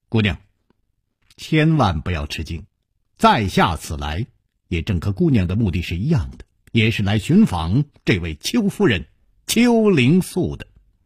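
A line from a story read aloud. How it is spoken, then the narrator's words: Light smiling tone. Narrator (Chinese): 楚留香微微一笑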